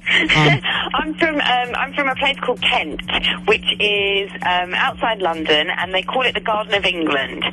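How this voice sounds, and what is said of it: Mixed English accent. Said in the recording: “obviously the accent. You're not originally from, you know, from like Philly. I can tell ... my accent's a little bit mixed ... you kind of can't quite pinpoint my accent”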